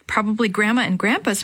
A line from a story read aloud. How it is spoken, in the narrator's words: Maria said